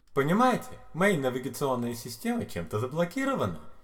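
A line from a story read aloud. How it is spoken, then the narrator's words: Cheerful upbeat computer voice. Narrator (Russian): объяснил компьютер бодрым жизнерадостным тоном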